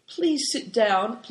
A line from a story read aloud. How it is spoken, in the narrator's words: pleaded Big Tiger